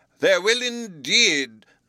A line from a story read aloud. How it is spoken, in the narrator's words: cried the delighted Professor